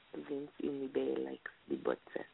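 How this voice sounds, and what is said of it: Put-on Russian accent. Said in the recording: “say it in English, but with a Russian accent”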